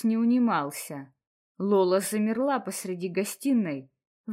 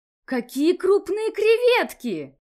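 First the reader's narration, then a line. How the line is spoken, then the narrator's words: Exclaimed with broad smile. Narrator (Russian): воскликнула Лола, улыбаясь во весь рот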